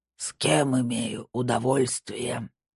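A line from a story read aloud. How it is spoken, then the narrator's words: Old man's distorted electronic rasp. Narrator (Russian): прохрипел старик искаженным электронным голосом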